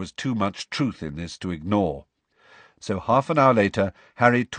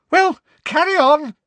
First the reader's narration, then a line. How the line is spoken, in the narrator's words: said Professor Trelawney loudly, her voice high-pitched and somewhat hysterical